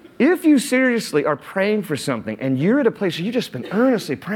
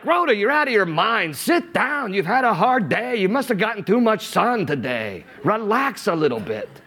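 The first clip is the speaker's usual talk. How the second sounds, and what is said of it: Put-on Jewish accent. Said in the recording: “I know the whole Jewish accent tonight.”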